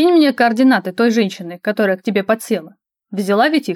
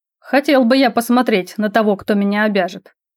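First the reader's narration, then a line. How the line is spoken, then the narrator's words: Prince, snorting grunt. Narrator (Russian): хмыкнул принц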